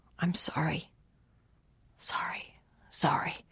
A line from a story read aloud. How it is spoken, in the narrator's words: Gry whispered